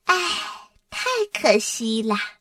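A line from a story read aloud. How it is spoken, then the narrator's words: Sighing. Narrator (Chinese): 多拉叹口气说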